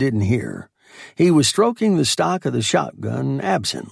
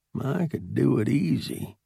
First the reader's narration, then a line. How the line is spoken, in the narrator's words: he muttered